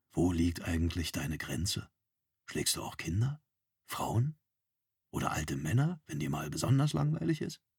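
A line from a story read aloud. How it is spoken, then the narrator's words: Quiet continuation. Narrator (German): fuhr Zorn leise fort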